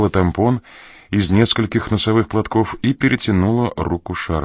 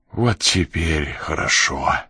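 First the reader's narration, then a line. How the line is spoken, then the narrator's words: Exhaled. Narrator (Russian): выдохнул Ян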